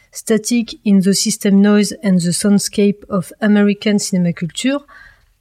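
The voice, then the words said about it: Accented pronunciation of English title. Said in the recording (French): “désolé pour mon accent”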